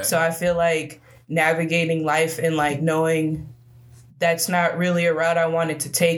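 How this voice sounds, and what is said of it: Noticeable regional accent. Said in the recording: “I mean, I got the accent. Oh, for sure ... people always ask where I'm from”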